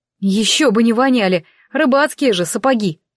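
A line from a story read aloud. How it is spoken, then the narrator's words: Grumbling. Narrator (Russian): проворчала я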